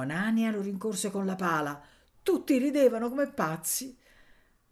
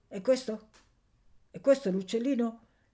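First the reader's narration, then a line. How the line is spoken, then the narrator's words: Horrible woman stammering question. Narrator (Italian): chiese balbettando l'orribile donna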